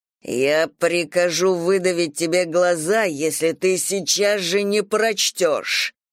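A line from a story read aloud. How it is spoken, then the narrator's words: Menacing growl. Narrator (Russian): прорычал Ли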